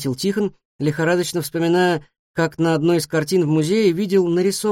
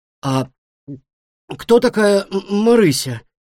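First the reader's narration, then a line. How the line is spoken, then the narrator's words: Strained forced-out words. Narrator (Russian): наконец смог выдавить из себя Тихон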